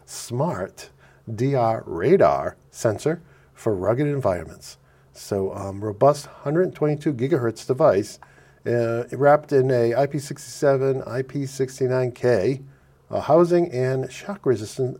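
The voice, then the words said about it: Noticeable accent coming through. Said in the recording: “You can tell my accent's coming through this morning.”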